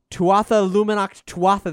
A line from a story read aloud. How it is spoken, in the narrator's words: they cried together, perfectly this time